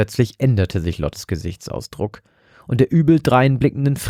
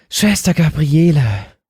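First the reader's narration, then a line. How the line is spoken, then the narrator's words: Sudden squeaky gasp. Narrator (German): keuchte Lotte plötzlich mit piepsender Stimme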